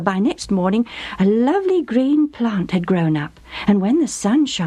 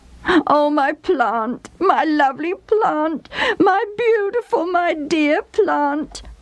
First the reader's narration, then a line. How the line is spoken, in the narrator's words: I sobbed